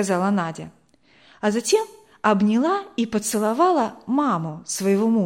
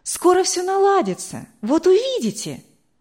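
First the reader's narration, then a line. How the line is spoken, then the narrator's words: Exclaiming. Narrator (Russian): воскликнула Вера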